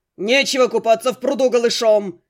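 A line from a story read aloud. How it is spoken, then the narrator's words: Shouted. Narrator (Russian): закричал Бергард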